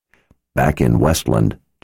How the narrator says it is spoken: Chase said in a low voice

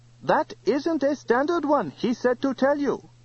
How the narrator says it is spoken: piped Mr

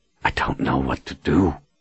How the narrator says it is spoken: Richard whispered

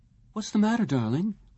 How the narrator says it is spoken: Lisa asked him uneasily

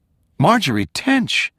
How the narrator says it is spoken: Gabrielle blurted

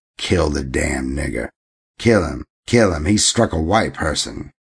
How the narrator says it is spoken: some cried

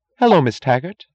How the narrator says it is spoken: said sharply, her voice loud and bright

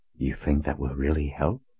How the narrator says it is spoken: Richard whispered

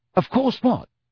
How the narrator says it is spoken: said Ron rather impatiently

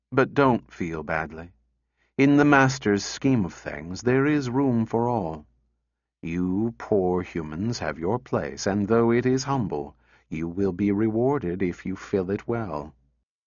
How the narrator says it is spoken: said in a kindly tone

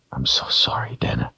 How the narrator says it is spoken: he whispered

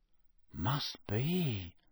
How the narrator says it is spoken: said Ron, in a low, awed voice

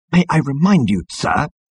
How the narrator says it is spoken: hissed Number Two at the captain

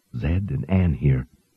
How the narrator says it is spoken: Out of reverence for the dead, whispered

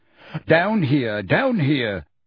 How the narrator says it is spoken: panted Mr

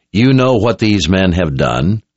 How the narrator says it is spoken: said in a powerful voice that brought them to silence

